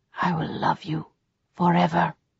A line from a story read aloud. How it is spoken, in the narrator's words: whispered